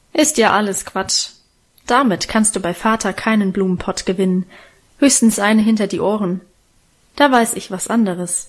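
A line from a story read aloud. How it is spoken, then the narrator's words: Calm, unhurried. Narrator (German): mit dieser ruhigen Stimme sagte sie jetzt gemächlich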